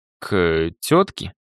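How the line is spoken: Slightly uncertain guess. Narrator (Russian): Все еще немного неуверенно, предположил

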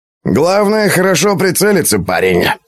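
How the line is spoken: Snorting. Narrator (Russian): хмыкнул Дугач

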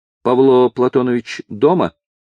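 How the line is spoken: Stern question. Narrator (Russian): строго спросила

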